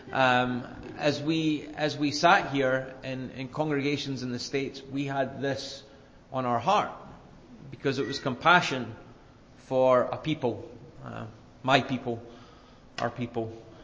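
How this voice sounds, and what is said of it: Scottish accent. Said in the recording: “I'm from Scotland originally, obviously I didn't just pick up the accent in a couple of years.”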